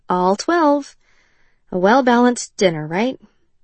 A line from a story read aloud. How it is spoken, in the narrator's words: Rylan said, and sighed